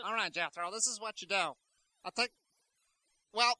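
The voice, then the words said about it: Higher-pitched voice with borrowed accent. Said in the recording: “you may be talking a little bit higher in a minute, just like I am... Picking up your accent, too... Kind of picked up your accent there”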